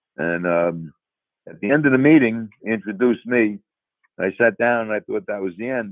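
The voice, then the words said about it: New York accent. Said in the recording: “as you can tell from my accent, I'm from New York”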